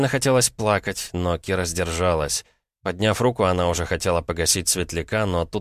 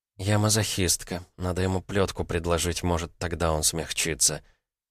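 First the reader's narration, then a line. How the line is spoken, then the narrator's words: Whispered. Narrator (Russian): прошептав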